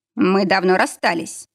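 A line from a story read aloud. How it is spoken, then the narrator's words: Icy tone. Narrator (Russian): сказал он ледяным тоном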